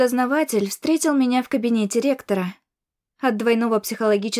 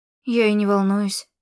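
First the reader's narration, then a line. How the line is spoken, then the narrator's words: Anxious mutter. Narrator (Russian): буркнула, сходя с ума от беспокойства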